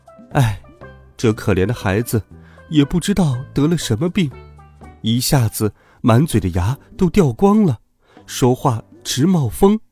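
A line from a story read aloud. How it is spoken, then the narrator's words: Sighing. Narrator (Chinese): 猴子太太叹了一口气说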